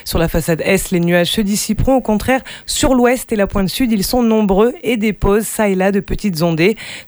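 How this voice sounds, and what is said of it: French with an American accent. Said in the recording (French): “toujours cet accent américain, on adore”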